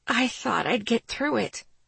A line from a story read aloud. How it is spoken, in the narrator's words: I rasped